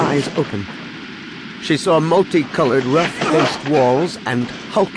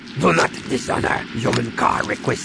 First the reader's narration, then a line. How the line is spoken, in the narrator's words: he growled in her face